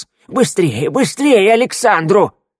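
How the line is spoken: Loud cry, young man. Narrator (Russian): громко вскрикнул высокий юноша

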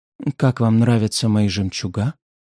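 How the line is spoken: Gentle question. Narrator (Russian): спросила ласково

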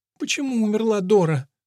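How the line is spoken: Whimpering. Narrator (Russian): проскулила Лола

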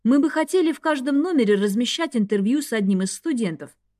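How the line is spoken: Calm. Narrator (Russian): спокойно продолжил Рейн

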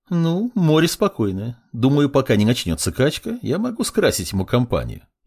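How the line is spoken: Snide. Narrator (Russian): ехидно заметила друид

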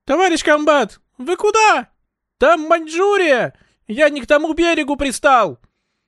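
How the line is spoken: Yelling from a roof. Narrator (Russian): Заорал с крыши Сергей Томшин

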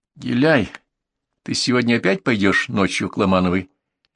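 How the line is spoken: Calm question. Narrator (Russian): спросила она спокойно

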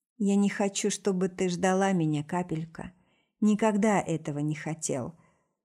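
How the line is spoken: Grim smirk. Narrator (Russian): усмехается мрачно

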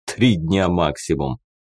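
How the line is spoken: Short laugh. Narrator (Russian): хохотнул Амбал

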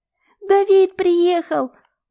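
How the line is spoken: Squeal. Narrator (Russian): взвизгивает Илья

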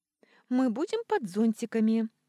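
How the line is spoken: Cheerful suggestion. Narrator (Russian): весело предложила Виола

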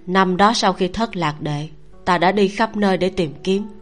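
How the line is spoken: Sighing. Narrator (Vietnamese): Khấu Toàn thở dài một hơi

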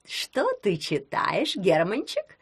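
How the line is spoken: Purring female voice. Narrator (Russian): промурлыкала она

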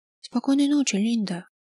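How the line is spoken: Quiet. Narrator (Russian): тихо произнесла она

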